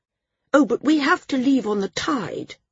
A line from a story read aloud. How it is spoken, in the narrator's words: he said earnestly